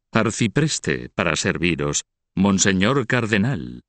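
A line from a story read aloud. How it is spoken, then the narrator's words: Mocking tone. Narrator (Spanish): agregó el otro en un tono burlón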